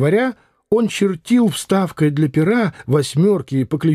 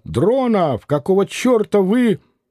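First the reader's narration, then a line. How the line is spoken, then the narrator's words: Editor shouting. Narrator (Russian): редактор закричал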